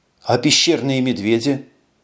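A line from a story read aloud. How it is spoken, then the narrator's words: Tired sigh. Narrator (Russian): Эш устало вздохнул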